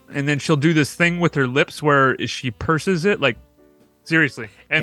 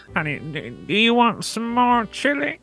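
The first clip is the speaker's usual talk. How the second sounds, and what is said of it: Imitates an older woman's voice. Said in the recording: “my imitation of my grandmother and my mom says it's spot on ... the way that my grandma talks”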